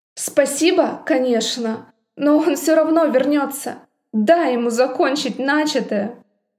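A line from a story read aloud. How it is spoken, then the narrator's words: Skeptical snort. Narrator (Russian): Я скептически фыркнула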